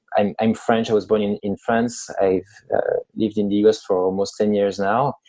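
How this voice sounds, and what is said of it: French accent in English. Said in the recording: “I've had nice comments about my accent. For some reason, the French accent”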